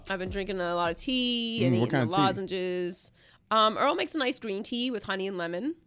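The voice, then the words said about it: Slightly nasal, congested voice. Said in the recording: “I had no voice ... you can still tell, it's a little nasally ... it's not 100%”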